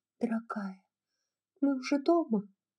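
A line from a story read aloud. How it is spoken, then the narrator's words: Whisper. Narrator (Russian): Мелани прошептала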